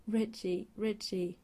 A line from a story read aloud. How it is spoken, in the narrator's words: Eddie … he starts whimpering